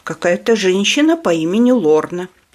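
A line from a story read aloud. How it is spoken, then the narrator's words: Plain. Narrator (Russian): ответила сестра Анжела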